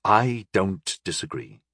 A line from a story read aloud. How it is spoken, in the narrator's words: I sighed evenly